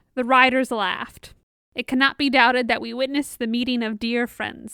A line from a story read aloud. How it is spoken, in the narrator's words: said Theoden